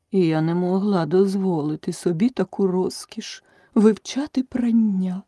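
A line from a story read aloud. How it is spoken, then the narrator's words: Sighing. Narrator (Ukrainian): зітхнула черепаха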